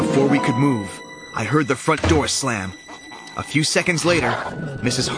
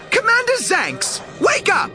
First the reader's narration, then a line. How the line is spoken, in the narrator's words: shouted